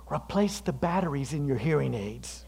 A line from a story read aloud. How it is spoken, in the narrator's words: whispered in her ear